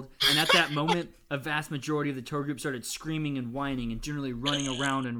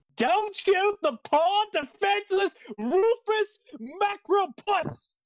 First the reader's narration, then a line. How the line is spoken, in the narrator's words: she yelled in a very irritating way